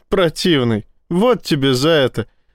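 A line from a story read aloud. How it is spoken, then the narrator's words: Laughing. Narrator (Russian): рассмеялась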